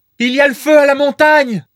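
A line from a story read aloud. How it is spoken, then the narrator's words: Woman exclaiming. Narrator (French): s'écria alors une femme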